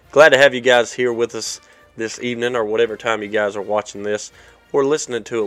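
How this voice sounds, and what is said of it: Rough, raspy voice. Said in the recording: “As you can hear by my voice, a little bit rough. It's been a little raspy all week”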